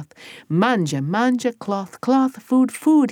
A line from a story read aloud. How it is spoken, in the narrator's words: he said